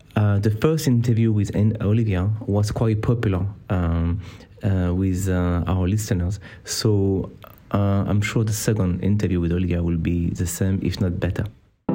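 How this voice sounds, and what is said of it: French-accented English. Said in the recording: “it is a challenge to understand my French accent”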